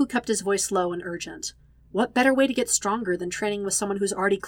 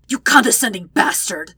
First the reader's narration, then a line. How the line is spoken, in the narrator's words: Vegeta's hissed response